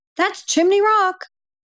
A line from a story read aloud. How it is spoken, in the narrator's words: Sam's mom, Teresa, exclaimed